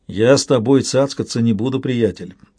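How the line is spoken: Grumbling. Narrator (Russian): проворчал Лавой

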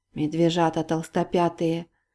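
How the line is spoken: Muttered. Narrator (Russian): пробормотала Полина

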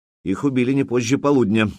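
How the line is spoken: Plain. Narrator (Russian): сказал Фроди

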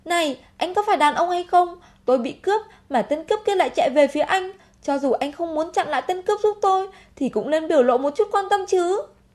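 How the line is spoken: Furious shout. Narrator (Vietnamese): Vì quá tức giận, hét to

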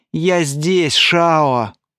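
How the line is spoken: Weak hoarse wheeze. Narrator (Russian): слабо просипел император

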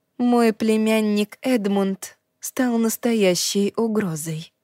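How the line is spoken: Quiet. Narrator (Russian): тихо сказала она

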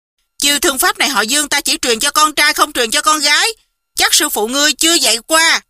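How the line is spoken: Shouting. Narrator (Vietnamese): y quay lại quát

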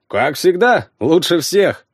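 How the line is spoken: Brisk cheerful report. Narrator (Russian): бодро отрапортовал Славка

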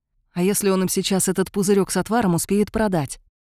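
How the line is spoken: Whispered objection. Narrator (Russian): тоже шепотом возразил Кайлин

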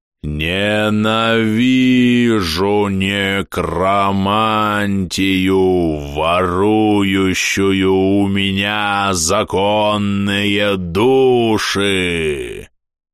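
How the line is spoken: Growled. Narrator (Russian): Прорычал Афросот XIX

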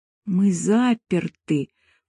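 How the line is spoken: Whisper. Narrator (Russian): прошептала Ольга

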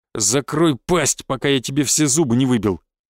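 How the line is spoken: Growl. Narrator (Russian): прорычал я

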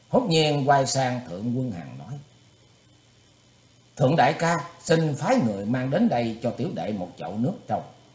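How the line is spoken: Quick smiling reply. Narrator (Vietnamese): Thủy Tướng Hạo mỉm cười đáp ngay

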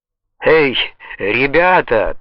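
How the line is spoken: Triumphant exclamation. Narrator (Russian): торжествующе воскликнул Аль

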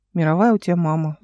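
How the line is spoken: Sighing. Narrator (Russian): вздохнул Алик

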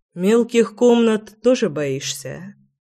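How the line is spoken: Calm man. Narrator (Russian): спокойно уточнил мужчина

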